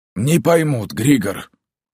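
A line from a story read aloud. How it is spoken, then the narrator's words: Low, hoarse voice. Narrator (Russian): Низкий хриплый голос переродившегося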